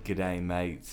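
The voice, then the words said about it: Crocodile Hunter impression, Australian accent. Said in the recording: “I actually did a few impersonations of him ... I would be the Crocodile Hunter”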